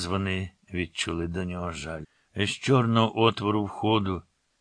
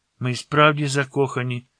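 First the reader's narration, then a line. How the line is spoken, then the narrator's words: Girl exclaiming. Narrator (Ukrainian): вигукнула дівчина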